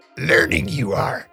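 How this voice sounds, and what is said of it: Yoda-style character voice. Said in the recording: “give us your best Yoda impression. ... That was pretty good.”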